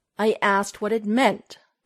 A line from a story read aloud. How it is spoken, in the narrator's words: Clark snapped, not liking her tone